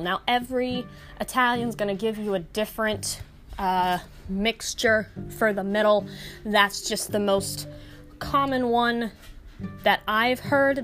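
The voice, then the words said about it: Slight New York accent. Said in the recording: “the New York accent came out a little bit while I was recording this”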